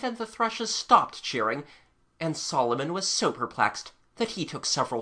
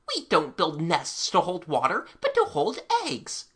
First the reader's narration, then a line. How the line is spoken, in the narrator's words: Finch ... she squeaked out